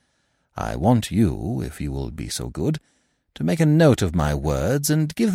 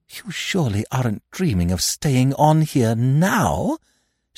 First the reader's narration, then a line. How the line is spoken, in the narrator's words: gasped